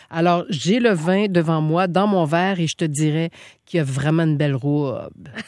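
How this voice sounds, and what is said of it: Put-on Saguenay Quebec accent. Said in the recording (French): “l'accent du Saguenay, c'est mon accent préféré ... je me moque pas, j'aime”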